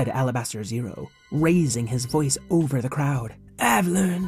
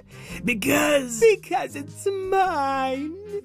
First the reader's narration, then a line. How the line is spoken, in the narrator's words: cried Mama Jamma